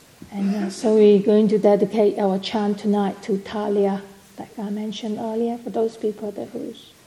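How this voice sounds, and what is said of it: Strained, fading voice. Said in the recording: “I am starting to lose my voice.”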